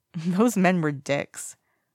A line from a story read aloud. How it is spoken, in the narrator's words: Wei Ying snorts